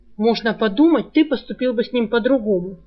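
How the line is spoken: Snapped. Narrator (Russian): огрызнулся Саврянин

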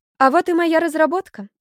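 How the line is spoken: Joyful announcement. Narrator (Russian): радостно сообщила Зойка

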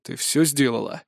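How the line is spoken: Rude question. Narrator (Russian): грубо спросил бывший слуга

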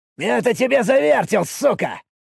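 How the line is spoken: Excited, cracking shout. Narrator (Russian): выкрикнул он, и голос у него срывался от возбуждения

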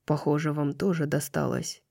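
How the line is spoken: Quiet. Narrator (Russian): тихо сказал он

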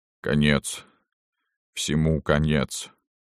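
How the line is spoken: Dejected, sinking voice. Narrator (Russian): произнес Никанор каким-то упавшим голосом

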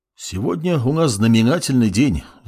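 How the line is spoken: Sighing man. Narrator (Russian): вздохнул лысый мужчина

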